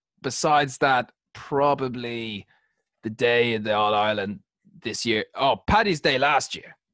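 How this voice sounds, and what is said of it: Strained put-on accent sounding English. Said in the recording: “This is just an English accent, lads. I'm trying, but it's tough.”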